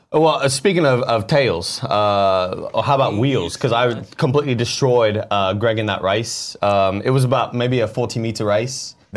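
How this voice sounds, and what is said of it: Put-on Australian / New Zealand accent. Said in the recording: “Now you're doing an Australian accent. I just want you to know you're dipping a little bit into... Now you're a New Zealander. You're just going all over the place.”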